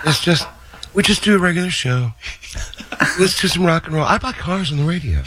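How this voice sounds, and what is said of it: Imitates another person's voice. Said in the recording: “does a great impression of John... That is incredible.”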